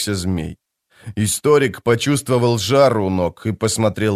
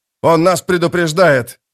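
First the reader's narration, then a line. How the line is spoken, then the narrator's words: Shouted. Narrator (Russian): закричал он Кальпу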